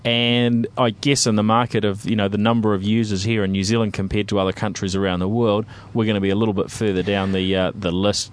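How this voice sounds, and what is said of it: New Zealand accent. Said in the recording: “our Kiwi accent is, you know, reasonably unique”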